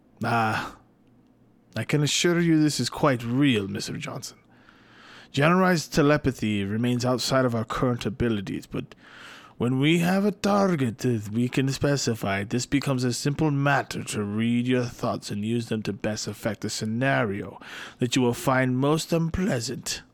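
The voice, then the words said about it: Odd put-on character accent. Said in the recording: “I don't know what the fuck that was, all right? So just bear with me on that accent.”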